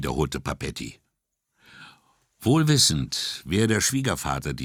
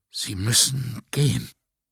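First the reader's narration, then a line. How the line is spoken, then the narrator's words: Trembling voice. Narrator (German): sagte mit bebender Stimme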